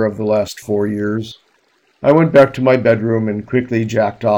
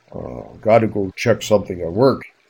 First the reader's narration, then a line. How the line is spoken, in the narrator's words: he mumbled